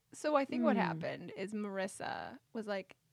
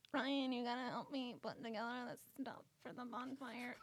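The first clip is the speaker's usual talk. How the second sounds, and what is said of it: Imitates a TV character's voice. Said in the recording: “good impression.”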